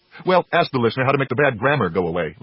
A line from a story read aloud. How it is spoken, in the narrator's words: laughed Davy